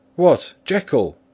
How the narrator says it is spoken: he cried

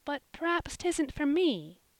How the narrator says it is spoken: said Polly, timidly

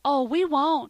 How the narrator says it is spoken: cried both of the children, perfectly overwhelmed with remorse

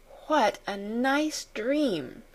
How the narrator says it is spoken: she murmured

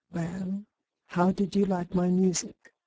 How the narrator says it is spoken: she asked

